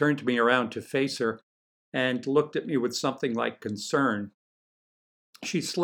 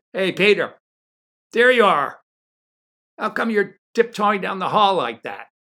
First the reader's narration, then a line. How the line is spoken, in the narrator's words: Spike shouted